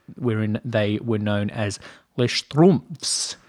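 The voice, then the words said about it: French spoken with German accent. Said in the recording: “That's French with a German accent.”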